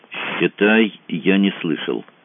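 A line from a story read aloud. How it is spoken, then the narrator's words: Plain. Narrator (Russian): сказал Мазур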